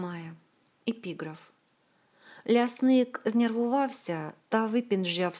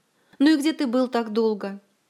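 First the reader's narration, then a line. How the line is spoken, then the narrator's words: Exclaimed. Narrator (Russian): воскликнул он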